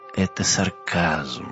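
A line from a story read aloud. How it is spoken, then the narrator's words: Ghostly sigh. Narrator (Russian): вздохнул призрак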